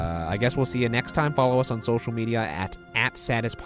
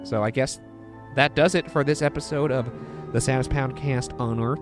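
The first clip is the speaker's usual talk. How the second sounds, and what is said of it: Unintentional Western accent. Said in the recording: “I don't know what happened with my voice there. That was an unintentional Western accent.”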